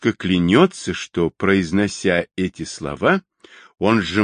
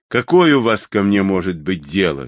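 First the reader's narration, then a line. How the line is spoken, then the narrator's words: Angry question. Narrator (Russian): сердито спросил конюх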